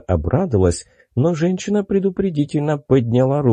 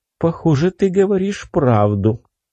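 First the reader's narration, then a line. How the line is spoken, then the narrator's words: Sighing. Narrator (Russian): она вздохнула и сказала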